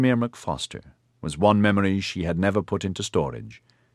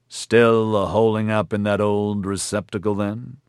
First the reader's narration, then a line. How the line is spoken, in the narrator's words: Gore said